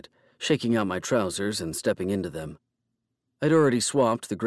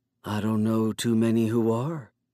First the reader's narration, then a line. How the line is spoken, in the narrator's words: Blade said in a smoky voice